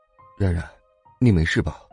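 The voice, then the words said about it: Quiet, hushed voice. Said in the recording (Chinese): “小声对他说”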